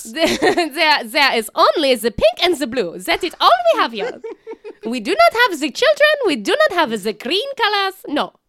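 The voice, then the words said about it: Silly put-on voice. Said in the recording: “in a silly voice”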